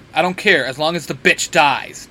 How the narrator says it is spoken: Dean snaps

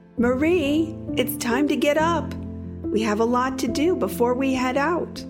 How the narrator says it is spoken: From the other room, her mom's voice called out

